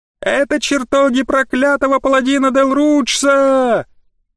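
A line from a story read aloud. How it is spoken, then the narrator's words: Shrill scream, young woman. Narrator (Russian): пронзительно завопила сероволосая девушка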